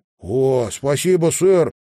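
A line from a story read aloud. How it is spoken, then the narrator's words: Exclamation. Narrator (Russian): воскликнул Малькольм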